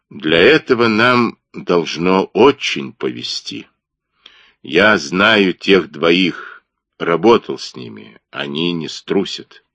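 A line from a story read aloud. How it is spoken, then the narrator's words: Slow. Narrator (Russian): Он помолчал, потом медленно сказал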